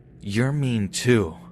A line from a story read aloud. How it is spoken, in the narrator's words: hisses